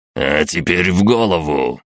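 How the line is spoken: Excited growl. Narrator (Russian): азартно прорычал сержант

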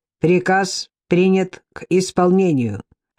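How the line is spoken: Clipped mechanical voice. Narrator (Russian): отчеканил механический голос

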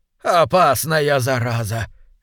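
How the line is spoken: Trembling mutter. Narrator (Russian): весь дрожа пробормотал мистер Грэнт

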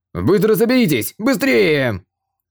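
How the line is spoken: Loud shout. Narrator (Russian): командир конницы разбойников Волчьих Клыков громко крикнул

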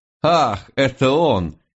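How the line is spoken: Dangerously light giggle. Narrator (Russian): хихикнула она с опасной легкостью

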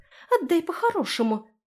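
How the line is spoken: Squeak. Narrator (Russian): пискнула Ри

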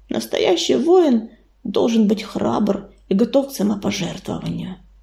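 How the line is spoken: Sad reminder. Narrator (Russian): грустно напомнил он

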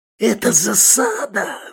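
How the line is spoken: Yell. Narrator (Russian): завопил Манюта

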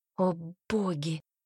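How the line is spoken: Hoarse whisper. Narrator (Russian): прошептала хрипло

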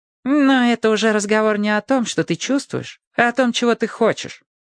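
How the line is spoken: Calm objection. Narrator (Russian): спокойно возразил Вух

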